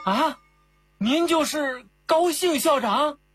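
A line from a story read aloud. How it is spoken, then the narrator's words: Sudden exclamation. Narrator (Chinese): 跟在后面的奇大怪一下叫了起来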